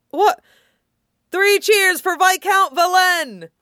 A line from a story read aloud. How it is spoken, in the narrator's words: Hawk shouted, mischief sparking in his eyes